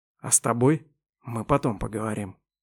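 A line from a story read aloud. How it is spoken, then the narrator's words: Menacing whisper. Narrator (Russian): угрожающе прошептал он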